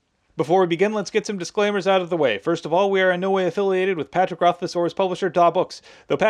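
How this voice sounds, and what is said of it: Usual voice. Nothing is said of it.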